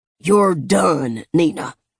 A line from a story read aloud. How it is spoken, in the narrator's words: he'd bellowed